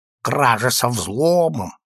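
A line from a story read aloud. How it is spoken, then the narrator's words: Nasal, through gritted teeth. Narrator (Russian): процедил сквозь свой крючковатый нос Иван Демьянович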